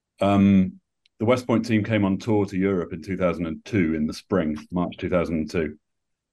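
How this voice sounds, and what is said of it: British accent. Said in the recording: “my accent points me out as British”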